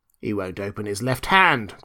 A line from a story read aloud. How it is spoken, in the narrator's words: growled another